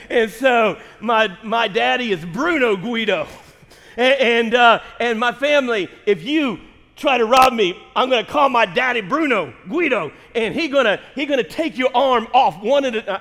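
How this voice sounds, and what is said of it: Put-on Italian mobster accent. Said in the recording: “I'm Italian. My family is connected to the mob ... Forget the accent.”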